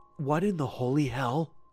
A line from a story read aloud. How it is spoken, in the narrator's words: Jesse whispered, his breath hitching